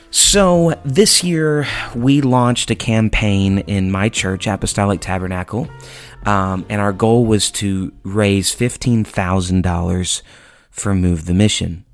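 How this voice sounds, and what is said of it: Tired, worn-out singing voice. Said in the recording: “My voice is super tired today, as you can probably hear ... just sang my voice out, and so it's a little bit tired today ... I sound a little tired”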